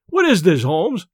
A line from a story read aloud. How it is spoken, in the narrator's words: I cried